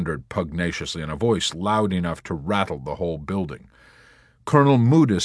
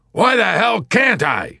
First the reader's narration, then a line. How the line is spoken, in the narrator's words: General Dreidel bellowed